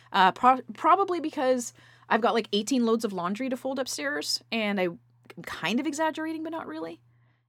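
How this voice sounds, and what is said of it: Talking very fast. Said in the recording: “I'm talking really fast.”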